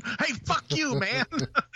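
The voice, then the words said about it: Put-on Brooklyn accent. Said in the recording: “nice accent, by the way. ... What is that? What is that, Brooklyn?”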